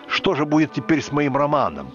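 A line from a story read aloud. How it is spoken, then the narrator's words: Exclaiming. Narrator (Russian): Джойс воскликнул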